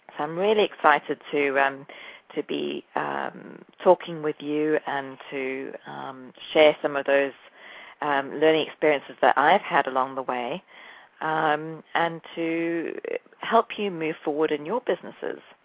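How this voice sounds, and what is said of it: English and South African accent. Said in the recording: “You can probably tell from my accent that I'm not American ... I am partly English and South African. I grew up in South Africa”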